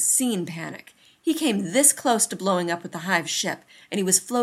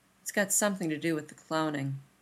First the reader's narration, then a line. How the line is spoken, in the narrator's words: he murmurs